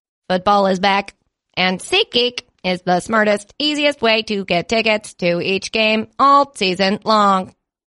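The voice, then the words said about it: Emotionless robot voice. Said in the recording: “your robot accent... my robot voice... robots don't laugh, no emotion”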